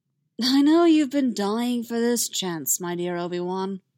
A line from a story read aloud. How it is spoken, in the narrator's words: purred, but he could tell her heart wasn't in it